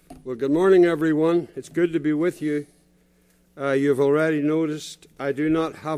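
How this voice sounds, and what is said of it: Northern Irish accent. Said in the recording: “Originally from Northern Ireland, so it's not an Oaky accent you're hearing. It's not Oklahoman accent”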